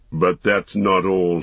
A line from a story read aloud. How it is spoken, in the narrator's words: he snarled